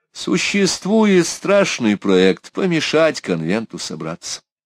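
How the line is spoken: Gloomy voice. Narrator (Russian): Мрачным голосом Ласур заговорил

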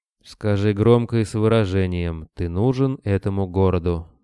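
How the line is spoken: Gloomy remark. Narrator (Russian): мрачно заметил Кобылин

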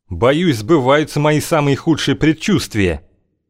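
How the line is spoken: Shouted while running. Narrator (Russian): крикнул Окш на бегу

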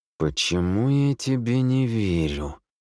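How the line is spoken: Through gritted teeth. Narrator (Russian): процедил Никодли через зубы

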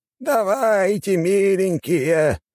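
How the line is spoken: Old man shouting, urging. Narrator (Russian): кричал старик, подгоняя их

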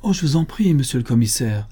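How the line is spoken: Pleading exclamation. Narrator (French): s'écria madame Renaud

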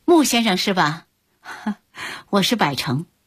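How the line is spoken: Smiling. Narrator (Chinese): 百成微笑着说

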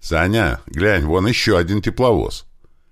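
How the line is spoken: Shout. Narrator (Russian): крикнул мне стоящий рядом Слива

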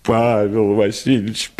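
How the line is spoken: Tearful moan, lady. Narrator (Russian): простонала барыня, и глаза ее наполнились слезами

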